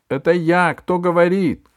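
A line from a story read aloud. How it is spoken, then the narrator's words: Shout. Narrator (Russian): крикнул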